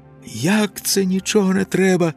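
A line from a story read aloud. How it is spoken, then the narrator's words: Shouting. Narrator (Ukrainian): закричав Ілько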